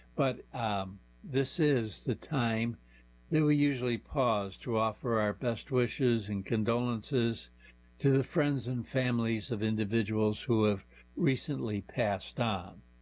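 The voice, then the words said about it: Strained, fading voice. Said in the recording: “I'm sort of struggling along here today. For some reason, I'm losing my voice.”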